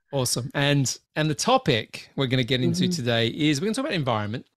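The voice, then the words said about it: Slightly raspy voice. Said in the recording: “my voice is a bit raspy”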